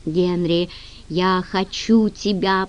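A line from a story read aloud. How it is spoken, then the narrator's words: Moan. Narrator (Russian): простонал он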